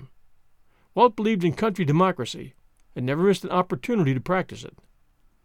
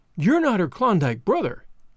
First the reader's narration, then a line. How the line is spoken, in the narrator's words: Madge cried, her eyes bright with interest